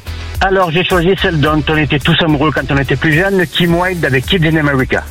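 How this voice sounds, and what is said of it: Southern French accent. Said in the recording (French): “Avec l'accent méridional”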